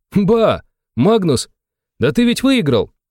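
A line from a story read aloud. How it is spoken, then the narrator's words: Exclaimed. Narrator (Russian): Воскликнул он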